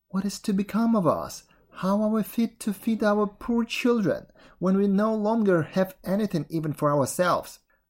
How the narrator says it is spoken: in his anxiety, he groaned and said to his wife

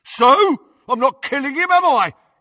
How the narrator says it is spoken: yelled Crab

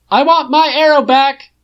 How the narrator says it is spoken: shouts belatedly

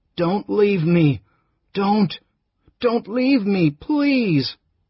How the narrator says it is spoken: He whimpered and flung himself about on the bed with such violence

